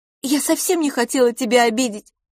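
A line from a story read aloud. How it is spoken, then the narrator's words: Sobbing. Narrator (Russian): всхлипнула она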